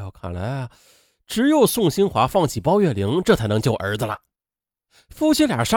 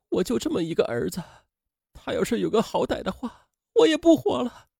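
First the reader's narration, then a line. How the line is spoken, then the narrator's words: Crying. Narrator (Chinese): 妻子哭着说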